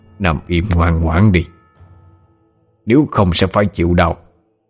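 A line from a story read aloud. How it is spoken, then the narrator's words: Cold voice. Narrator (Vietnamese): Một giọng nói lạnh lùng vang lên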